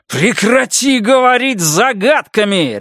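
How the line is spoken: Spluttering bark. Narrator (Russian): рявкнул я, разбрызгивая слюну

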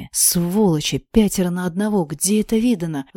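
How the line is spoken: Angry hiss. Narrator (Russian): злобно прошипела я, почти как Рэйчел Салливан

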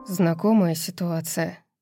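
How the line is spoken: Muttering. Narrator (Russian): пробормотал Итан

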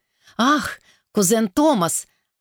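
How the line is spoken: Exclaiming. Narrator (Russian): воскликнула она

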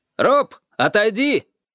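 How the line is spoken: Shout. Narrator (Russian): крикнул он

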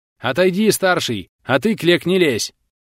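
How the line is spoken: Quick warrior's shout. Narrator (Russian): успел крикнуть варяг

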